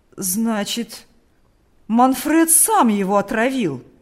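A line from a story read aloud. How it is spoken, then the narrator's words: Excited trembling old man. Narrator (Russian): воскликнул старик, дрожа от волнения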